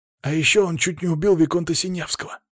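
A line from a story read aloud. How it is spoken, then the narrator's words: Another whisper. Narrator (Russian): вдогонку отправился еще один шепоток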